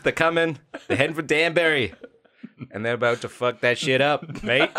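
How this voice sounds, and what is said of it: Put-on Australian accent, not good. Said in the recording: “I like how I went from JFK to Australian... My accents are not good.”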